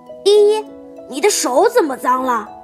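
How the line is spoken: Calling out. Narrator (Chinese): 琪琪叫他

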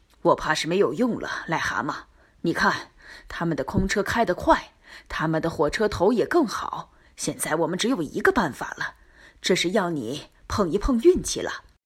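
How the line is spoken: Sighing. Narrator (Chinese): 火车司机叹了口气，说

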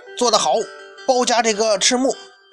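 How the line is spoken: Shouting from the sidelines. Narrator (Chinese): 他在场下就喊

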